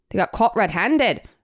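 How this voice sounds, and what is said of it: Fairly good put-on Scottish accent. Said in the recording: “you kind of have a good Scottish accent”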